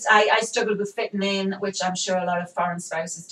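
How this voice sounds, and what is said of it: Toned-down English accent. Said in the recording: “your accent is very toned down now compared to the way it used to be ... everybody says it's English”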